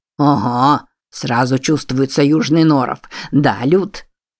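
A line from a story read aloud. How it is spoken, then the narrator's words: Hissed, face contorted. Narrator (Russian): Бородатый прошипел с искаженным лицом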